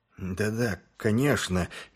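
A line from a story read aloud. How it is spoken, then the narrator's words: Slightly trembling voice. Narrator (Russian): чуть дрожащим голосом промолвил он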